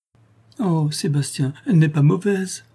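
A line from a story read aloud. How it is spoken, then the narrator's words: Tearful exclamation. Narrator (French): s'écria Isabelle au milieu d'un flot de nouvelles larmes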